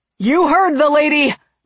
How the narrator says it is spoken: Barlow shouted to his friends

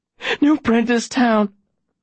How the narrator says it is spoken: the woman gasps

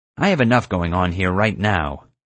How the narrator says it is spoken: Nina said coldly

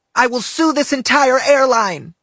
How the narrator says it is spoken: she screamed

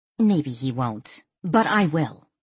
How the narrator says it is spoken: Danielle snapped

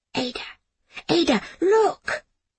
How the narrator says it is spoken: Jamie whispered

